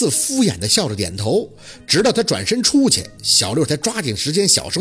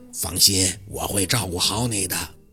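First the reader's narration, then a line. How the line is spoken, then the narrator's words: Low whisper in ear. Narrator (Chinese): 嘴巴凑到宝四的耳边，压低声音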